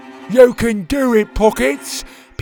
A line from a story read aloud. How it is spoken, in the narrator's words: Petey called out